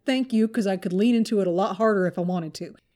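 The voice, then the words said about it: Mild Texas accent. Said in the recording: “the presenter does a great job of telling the tales with a mild Texas accent”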